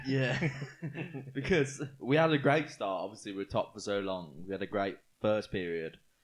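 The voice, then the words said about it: Scouse (Liverpool) accent. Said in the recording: “Scouse accent”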